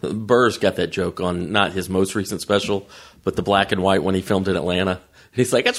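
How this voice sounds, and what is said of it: Usual voice. Nothing is said of it.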